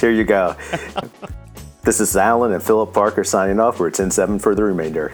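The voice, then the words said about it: Put-on sexy, sultry voice. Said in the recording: “You sound better than me. You sound more sexy. ... for my sexy voice.”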